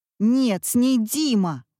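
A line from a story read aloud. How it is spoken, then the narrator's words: Shouting. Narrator (Russian): кричал Вася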